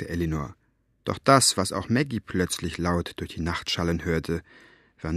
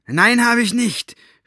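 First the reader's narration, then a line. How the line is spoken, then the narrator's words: Shouted back. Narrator (German): schrie Staubfinger zurück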